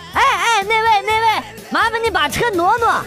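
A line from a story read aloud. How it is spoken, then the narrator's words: Shouting. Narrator (Chinese): 对那辆车喊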